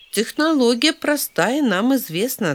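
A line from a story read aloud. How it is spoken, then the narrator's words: Plain. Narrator (Russian): ответил Драйв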